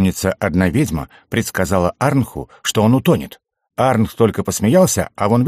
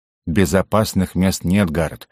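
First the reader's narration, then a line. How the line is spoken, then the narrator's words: Scoffing grunt. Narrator (Russian): хмыкнул Медок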